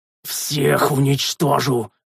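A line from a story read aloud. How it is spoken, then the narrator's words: Roaring. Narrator (Russian): проревел я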